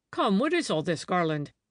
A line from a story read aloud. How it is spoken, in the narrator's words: he said sternly, though his own face was full of fear